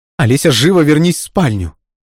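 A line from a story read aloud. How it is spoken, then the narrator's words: Sharp shout. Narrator (Russian): прикрикнула на нее женщина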